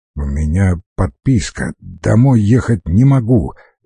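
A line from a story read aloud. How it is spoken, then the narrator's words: Forced out. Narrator (Russian): выдавил он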